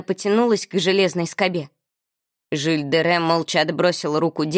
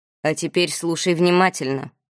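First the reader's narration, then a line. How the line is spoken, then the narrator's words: Deep bass voice. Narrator (Russian): пробасил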